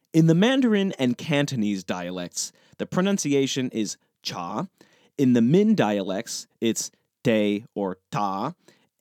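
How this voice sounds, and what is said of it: American English accent. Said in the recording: “my painfully American accent”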